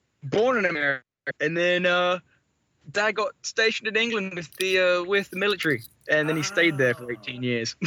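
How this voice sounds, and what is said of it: Non-American accent. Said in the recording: “You sound like you're not American ... The accent is not from America.”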